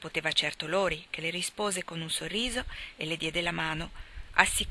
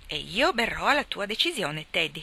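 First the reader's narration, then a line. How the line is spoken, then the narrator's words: Beaming exclamation. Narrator (Italian): esclamò Joe, illuminandolo di un sorriso raggiante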